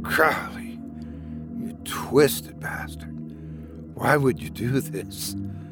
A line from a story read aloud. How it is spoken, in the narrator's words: Oliver whispered in disbelief